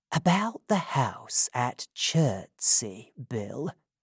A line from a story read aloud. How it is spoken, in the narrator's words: said Fagin very quietly